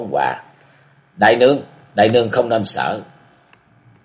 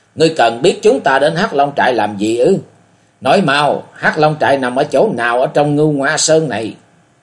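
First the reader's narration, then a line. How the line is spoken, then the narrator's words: Terrified young woman's shriek. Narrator (Vietnamese): Thiếu phụ kinh hoàng rú lên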